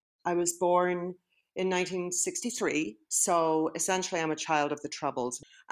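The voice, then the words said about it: Northern Irish accent. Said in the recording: “As you might guess from her accent... she's from a very different part of the world, Northern Ireland.”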